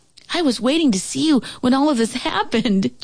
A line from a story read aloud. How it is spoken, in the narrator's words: Joey exclaimed